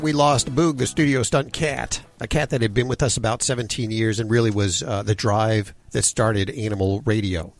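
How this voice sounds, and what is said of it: Voice choked with emotion. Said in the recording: “I still, to this day, get a little verklempt, as you can hear in my voice, when I think about him.”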